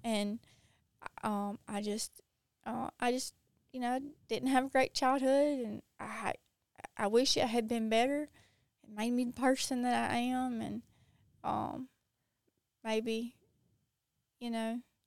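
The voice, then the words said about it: Southern American accent. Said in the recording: “I love your accent ... I'm from the South. I know it's real.”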